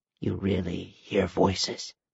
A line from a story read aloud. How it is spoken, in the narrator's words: she whispered